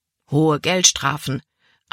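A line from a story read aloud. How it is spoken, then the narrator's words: Plain answer. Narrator (German): antwortete ihr Vater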